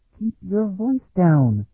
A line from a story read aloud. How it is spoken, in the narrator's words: Afriel muttered